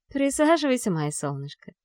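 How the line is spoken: Mother speaking tenderly. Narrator (Russian): ласково говорит мама

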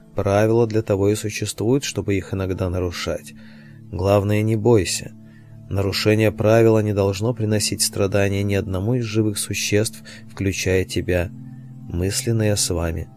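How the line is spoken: Plain. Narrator (Russian): сказал мастер

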